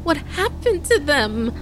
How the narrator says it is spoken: Caden stammered through her tears

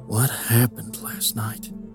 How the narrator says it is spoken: Jack mumbled under his breath

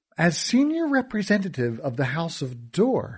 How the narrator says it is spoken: she said

